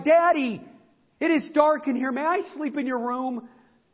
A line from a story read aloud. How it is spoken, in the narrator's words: his daughter, she cried